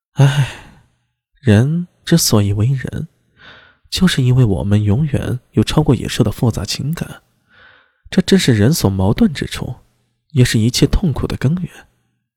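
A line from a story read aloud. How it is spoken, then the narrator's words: Soft sigh. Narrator (Chinese): 轻叹了一口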